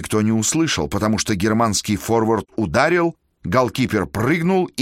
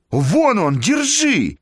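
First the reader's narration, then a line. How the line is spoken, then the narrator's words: Full-throated shout. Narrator (Russian): крикнул во все горло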